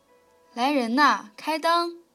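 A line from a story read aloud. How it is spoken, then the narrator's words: Old woman calling out. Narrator (Chinese): 四奶奶答应着，一面叫喊道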